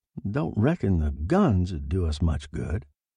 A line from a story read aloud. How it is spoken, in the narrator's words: Martin murmured